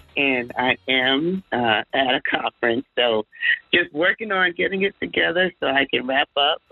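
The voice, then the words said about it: Strained voice. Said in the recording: “my voice is a little strained.”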